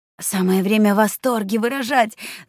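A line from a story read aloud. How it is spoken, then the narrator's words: Hissed into ear. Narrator (Russian): зашипела она девчонке на ухо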